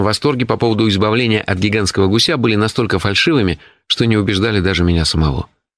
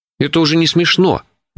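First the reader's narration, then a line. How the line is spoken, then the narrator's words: Indignant. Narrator (Russian): возмущенно начал я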